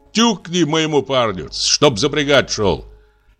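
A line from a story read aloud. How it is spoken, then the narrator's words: Shouting from window. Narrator (Russian): Дюдя в это время кричал из окошка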